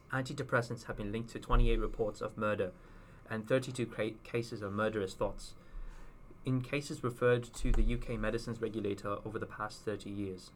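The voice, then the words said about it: Put-on British accent. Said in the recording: “in my famous British accent.”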